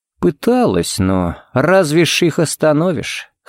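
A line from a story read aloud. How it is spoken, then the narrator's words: Sighing. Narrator (Russian): Харри вздохнул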